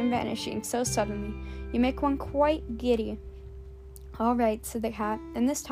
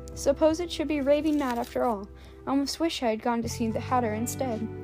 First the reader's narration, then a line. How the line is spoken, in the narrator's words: rather timidly, saying to herself